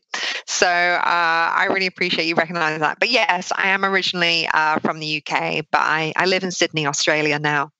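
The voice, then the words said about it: Slight British accent, partly Australian. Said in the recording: “I thought I was going to be speaking to an Australian ... but you've got a bit of an accent, I hear ... my British friends and family tell me that I've lost my accent and that I sound Australian”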